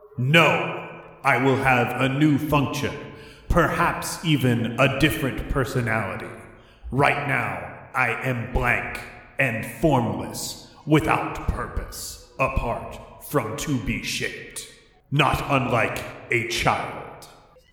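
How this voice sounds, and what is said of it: Booming, spooky character voice. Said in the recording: “It says in a booming, spooky voice.”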